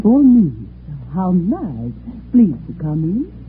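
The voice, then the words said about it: Russian accent. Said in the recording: “She had a Russian accent”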